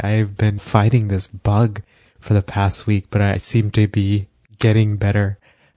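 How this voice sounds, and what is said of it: Deeper, bassy voice from illness. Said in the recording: “my voice is a little bit more deeper and a little bit more bassy ... I don't even recognize your voice sometimes ... a deeper voice”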